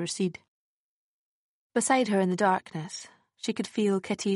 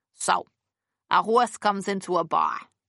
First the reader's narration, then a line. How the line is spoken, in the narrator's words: Kitty said, in her best New York accent